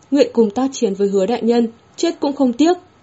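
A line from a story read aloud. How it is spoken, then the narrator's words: Soldiers' low growl. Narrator (Vietnamese): Các cấm quân gầm nhẹ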